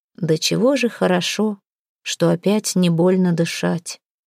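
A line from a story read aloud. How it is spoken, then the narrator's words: Quiet. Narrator (Russian): тихо сказал он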